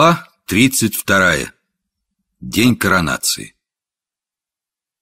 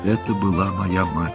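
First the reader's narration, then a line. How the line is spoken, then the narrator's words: Toneless hollow voice. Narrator (Russian): сказал беззвучным голосом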